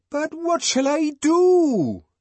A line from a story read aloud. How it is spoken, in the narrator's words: Bernard wailed